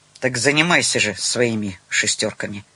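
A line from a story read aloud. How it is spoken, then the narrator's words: Angry mutter. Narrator (Russian): Розовый рассердился, буркнул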